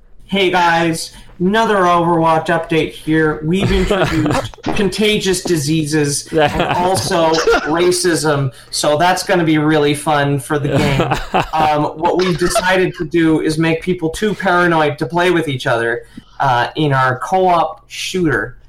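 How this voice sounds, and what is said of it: Impression of Jeff Kaplan. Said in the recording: “my impression of Jeff Kaplan ... That's pretty good, pretty good ... He's got thin lips and his tongue gets in the way of his teeth”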